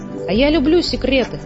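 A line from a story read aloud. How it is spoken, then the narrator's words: Monkey shouting. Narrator (Russian): крикнула мартышка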